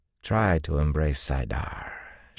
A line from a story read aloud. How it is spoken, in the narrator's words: she drawled